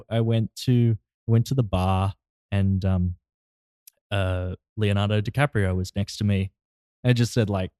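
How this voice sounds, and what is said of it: Australian accent. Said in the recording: “an even thicker accent than that ... throwing it on a little thicker ... I flexes with the accent ... Oh, you're Australian?”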